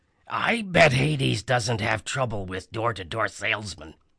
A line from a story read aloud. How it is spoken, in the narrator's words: Grover mumbled